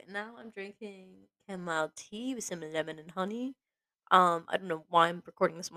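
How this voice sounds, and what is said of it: Rough, unwell-sounding voice. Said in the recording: “My voice sounds so gross”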